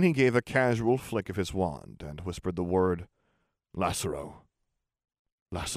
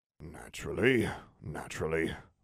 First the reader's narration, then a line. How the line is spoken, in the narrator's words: muttered Algy